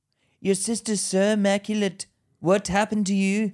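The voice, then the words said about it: Unconvincing put-on Indian accent. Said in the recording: “Is he South African? ... Nah, he's Indian. ... you need to work on that accent.”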